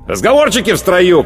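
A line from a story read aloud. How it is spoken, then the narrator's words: Shouted. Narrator (Russian): крикнул сержант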